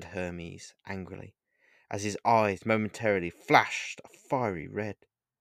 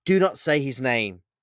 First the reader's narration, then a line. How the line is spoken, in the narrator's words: shouted Hermes